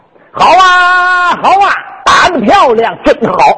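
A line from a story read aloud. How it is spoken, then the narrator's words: Loud shout. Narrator (Chinese): 有人高喊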